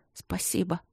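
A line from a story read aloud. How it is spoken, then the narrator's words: Embarrassed, self-annoyed mumble. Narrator (Russian): пробормотала Алина, смущаясь еще больше и ужасно сердясь на себя за это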